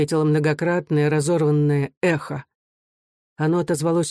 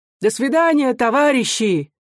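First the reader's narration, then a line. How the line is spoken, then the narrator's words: Shout from soldiers' crowd. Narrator (Russian): крикнули из толпы солдат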